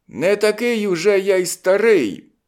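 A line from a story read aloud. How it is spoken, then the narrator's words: Triumphant shout. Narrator (Ukrainian): переможно глянув на першого і крикнув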